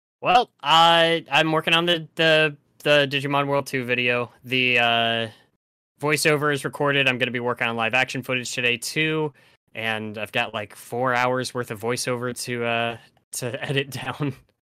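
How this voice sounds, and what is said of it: Slightly tired voice. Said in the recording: “my voice is a little tired right now. Is I did a lot of recording”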